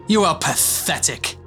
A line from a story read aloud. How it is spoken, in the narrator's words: he spat